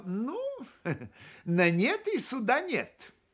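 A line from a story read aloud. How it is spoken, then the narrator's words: Laughing. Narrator (Russian): засмеялся Глеб и сказал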